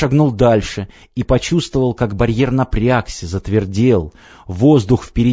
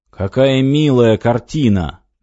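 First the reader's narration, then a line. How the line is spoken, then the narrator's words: Mocking lord. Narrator (Russian): насмешливо сказал властелин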